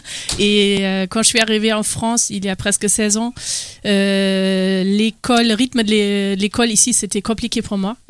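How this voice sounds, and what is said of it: German accent speaking French. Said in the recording (French): “je viens d'Allemagne, donc d'où mon accent”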